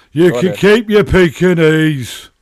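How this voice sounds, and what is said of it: Imitates another person's voice. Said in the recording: “my Mick McCarthy impersonation”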